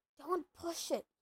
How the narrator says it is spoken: he muttered

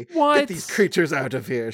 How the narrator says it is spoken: snaps

